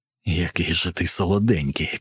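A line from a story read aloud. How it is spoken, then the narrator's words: Whisper. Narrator (Ukrainian): прошепотів Вартон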